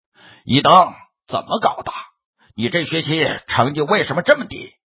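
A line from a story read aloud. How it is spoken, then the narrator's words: Angry father asking. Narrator (Chinese): 一位父亲 怒气冲冲的问道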